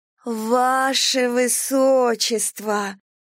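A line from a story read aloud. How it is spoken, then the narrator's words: Drawn-out servant's call. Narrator (Russian): протянула прислужница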